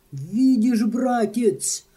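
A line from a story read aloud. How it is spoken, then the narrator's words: Jubilant exclamation. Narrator (Russian): воскликнул, ликуя, Лёвенборг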